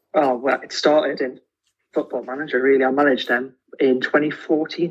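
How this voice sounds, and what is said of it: Geordie accent. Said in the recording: “I can hear that Geordie accent.”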